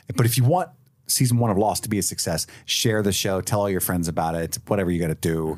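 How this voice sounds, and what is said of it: Put-on Brooklyn accent. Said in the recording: “I got back into my Brooklyn accent”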